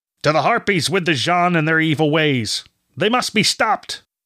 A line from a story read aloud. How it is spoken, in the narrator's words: man shouted